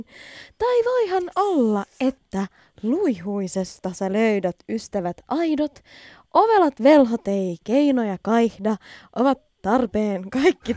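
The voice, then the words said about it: Finnish spoken in posh British accent. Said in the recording (Finnish): “aksenttiin ... britti aksentilla voi puhua suomeksi ... Se yl, ylvä ... sellainen hienostunut”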